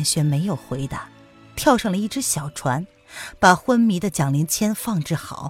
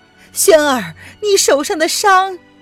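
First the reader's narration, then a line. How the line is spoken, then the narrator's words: Concerned call. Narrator (Chinese): 杨氏心中不忍，冲着他的背影喊道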